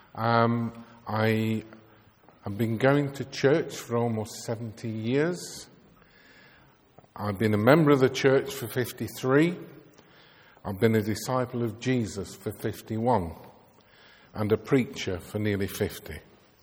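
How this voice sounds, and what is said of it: Lancashire Bolton English accent. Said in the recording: “born in Bolton in Lancashire, which explains my accent.”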